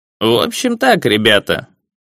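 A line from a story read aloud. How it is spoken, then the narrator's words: Muffled low voice. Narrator (Russian): глухо заговорил дядюшка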